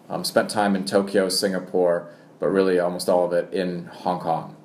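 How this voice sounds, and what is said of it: American accent. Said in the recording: “as soon you will hear an American accent ... my American accent comes from watching too much American television”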